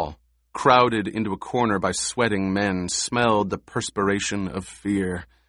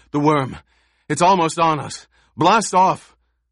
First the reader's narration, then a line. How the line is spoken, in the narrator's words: The last man came gasping into the rear, said